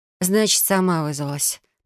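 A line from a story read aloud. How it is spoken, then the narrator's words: Sigh. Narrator (Russian): вздохнула я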